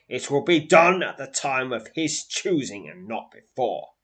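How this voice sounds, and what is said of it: Deep grumbling character voice. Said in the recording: “grumbles another deep voice”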